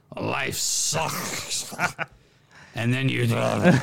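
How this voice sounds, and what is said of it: Vince McMahon impression, drowning. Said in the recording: “That's a great impression of Vince McMahon drowning.”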